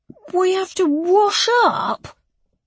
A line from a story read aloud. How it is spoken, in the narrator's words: Adrian whined